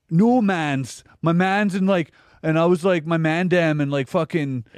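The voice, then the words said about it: Mock Toronto fake-Jamaican slang accent. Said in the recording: “The white people who pretend they're Jamaican in Toronto have the worst fucking accent in the world.”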